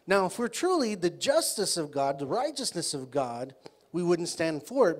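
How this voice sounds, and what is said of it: Strong, hard-to-follow accent. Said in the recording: “I can see you're still getting used to my accent. ... You'll start understanding the more we go on.”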